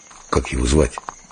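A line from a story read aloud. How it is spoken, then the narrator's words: Quiet question. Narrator (Russian): Дымов спросил тихо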